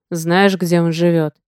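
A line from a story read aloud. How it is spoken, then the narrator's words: Through gritted teeth. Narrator (Russian): процедил Одноглазый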